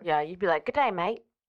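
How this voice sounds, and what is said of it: Put-on Australian accent. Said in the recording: “Is that an accent? ... I could be Australian.”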